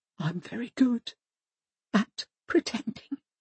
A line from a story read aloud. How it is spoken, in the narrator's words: she whispers